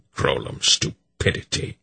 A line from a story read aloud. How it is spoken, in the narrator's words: Belgarath growled